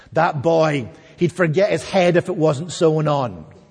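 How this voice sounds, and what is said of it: Imitated thick Scottish accent. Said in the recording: “in her thick Scottish accent”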